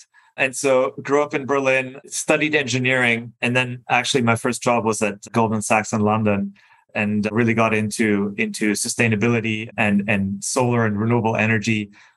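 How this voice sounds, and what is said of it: German accent. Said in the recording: “as you can probably tell from my weird name and accent, I don't hail from this country. I'm German originally.”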